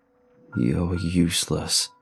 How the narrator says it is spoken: he growled, rolling his tongue

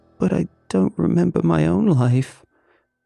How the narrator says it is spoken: she whimpered

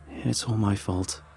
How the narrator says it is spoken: sighed

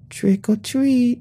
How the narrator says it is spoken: they squealed

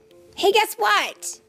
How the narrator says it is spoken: Arlo called out

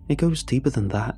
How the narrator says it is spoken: said

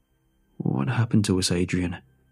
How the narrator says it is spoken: He mumbled

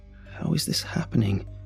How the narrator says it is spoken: whispered

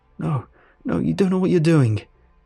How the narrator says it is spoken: I cried

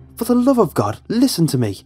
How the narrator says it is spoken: I yelled at her

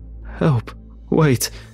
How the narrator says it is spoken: the homeless man cries out from behind me

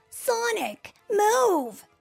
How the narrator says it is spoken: Tails yelled

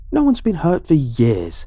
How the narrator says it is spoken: he snapped at me

